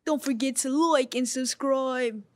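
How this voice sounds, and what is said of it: Put-on English accent. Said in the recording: “You just automatically hit like an English accent”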